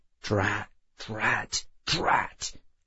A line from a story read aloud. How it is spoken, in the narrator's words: He was just muttering